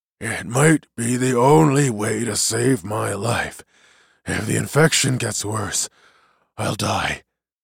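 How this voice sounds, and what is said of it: Hoarse whisper. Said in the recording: “whispered hoarsely”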